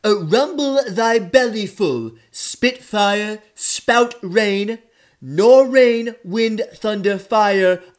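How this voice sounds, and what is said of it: Donald Trump impression reciting Shakespeare. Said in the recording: “celebrity impersonator ... his impression of Donald Trump doing Shakespeare”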